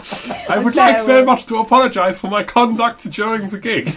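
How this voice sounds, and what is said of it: Mock German accent. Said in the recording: “slagging off Germans now by doing the voice”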